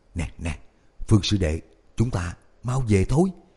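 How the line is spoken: Hurried anxious whisper. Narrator (Vietnamese): Tôn Quản Sự sợ hắn chọc giận Tiểu Lạc Tiêu, vội vàng nhỏ giọng khuyên nhủ

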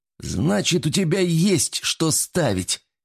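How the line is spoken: Happy. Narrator (Russian): сказал он радостно

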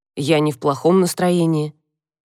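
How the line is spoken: Snorting. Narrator (Russian): Она фыркнула

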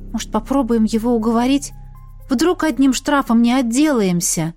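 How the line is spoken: Timid suggestion. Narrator (Russian): робко предложила

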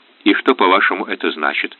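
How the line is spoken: Plain. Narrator (Russian): спросил я

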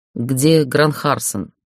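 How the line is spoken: Growling. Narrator (Russian): прорычал его фамилию

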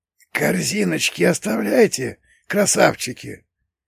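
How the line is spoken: Wheezy rasp. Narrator (Russian): просипел один из шакалов

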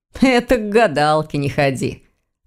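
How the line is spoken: Laughing. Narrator (Russian): рассмеялся Ваня

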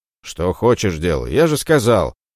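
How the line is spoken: Irritated bark. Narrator (Russian): раздраженно рявкнул Ромей

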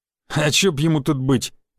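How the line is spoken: Scoffing thug. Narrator (Russian): хмыкнул второй амбал

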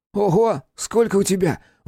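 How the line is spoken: Exclaimed. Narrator (Russian): воскликнул Сашка

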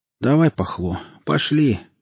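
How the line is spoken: Glum, dispirited. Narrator (Russian): уныло проговорил Жорик

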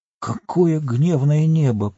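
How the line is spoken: Hobbit's mutter. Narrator (Russian): пробормотал хоббит

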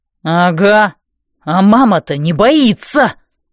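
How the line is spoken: Howled. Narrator (Russian): взвыл

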